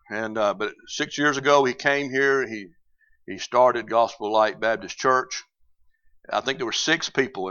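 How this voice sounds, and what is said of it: Southern US drawl. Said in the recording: “y'all have to forgive my southern drawl. I will throw y'alls out there every now and then. I can't help it.”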